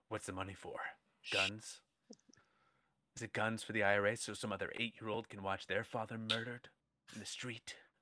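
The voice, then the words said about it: Deep, low, serious movie voice. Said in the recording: “There was like a lot of like deep low talking, a lot of very serious.”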